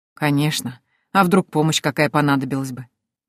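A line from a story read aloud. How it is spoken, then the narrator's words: Gentle old man. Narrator (Russian): Как всегда ласково сказал старик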